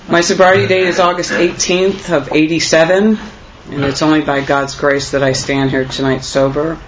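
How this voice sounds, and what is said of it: Nervous, slightly crackly voice. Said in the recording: “I always get nervous before I speak... my voice gets a little crackly”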